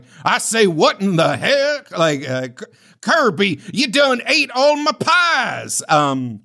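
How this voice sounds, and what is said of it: Bad Southern accent, Foghorn Leghorn impression. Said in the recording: “King Dedede has a weird, bad Southern accent ... It's basically Foghorn Leghorn”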